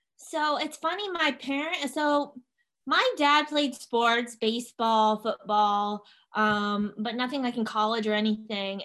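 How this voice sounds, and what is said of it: Southern American accent. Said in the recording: “you do have kind of an interesting accent ... everybody thinks you're an idiot if you have a Southern accent”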